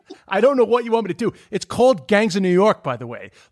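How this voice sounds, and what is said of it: New York accent. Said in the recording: “that's my accent ... Can you stop doing the New York accent? ... I'm from Queens ... The accent I'm doing is my accent”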